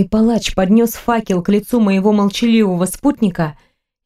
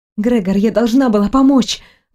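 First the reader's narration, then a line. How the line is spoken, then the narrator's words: Breathless, helpless. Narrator (Russian): выдохнула в ответ, чувствуя полное бессилие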